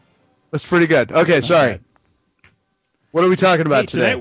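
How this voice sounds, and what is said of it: Usual voice. Nothing is said of it.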